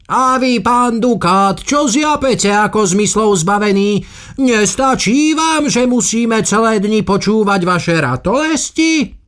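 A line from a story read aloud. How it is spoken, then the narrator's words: Man shouting. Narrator (Slovak): iný pán zakričal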